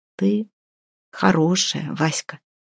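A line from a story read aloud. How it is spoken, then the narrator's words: Quiet, newly tender. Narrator (Russian): проговорил он тихо, но с какой-то новой непривычной нежностью в голосе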